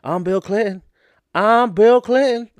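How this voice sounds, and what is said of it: Bill Clinton impression. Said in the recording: “my Bill Clinton impression? Oh, yeah, I do it all the time.”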